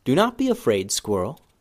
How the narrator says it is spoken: Benben said softly

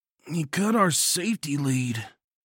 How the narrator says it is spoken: Bomber grunted

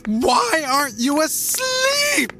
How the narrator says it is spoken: she shrieked in a shrill tone I'd never heard from her before

